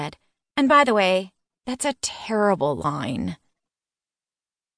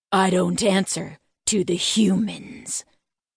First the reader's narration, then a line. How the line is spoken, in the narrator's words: he snarled